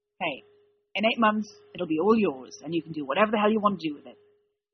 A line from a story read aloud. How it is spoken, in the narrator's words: Dean snapped